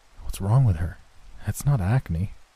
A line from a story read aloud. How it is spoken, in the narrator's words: I whispered to him